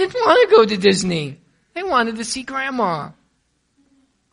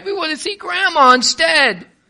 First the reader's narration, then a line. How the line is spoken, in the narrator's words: They cried